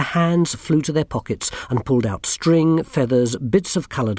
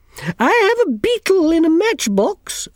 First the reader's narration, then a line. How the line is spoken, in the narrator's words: squeaked Miss Level